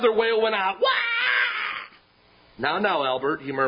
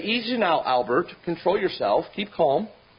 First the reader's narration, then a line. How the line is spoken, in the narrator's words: The father seemed quite unperturbed as he quietly said